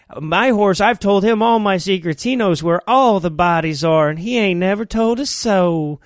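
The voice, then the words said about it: Put-on Southern US accent. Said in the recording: “I'm doing way too good a southern accent, and I'm fucking it up.”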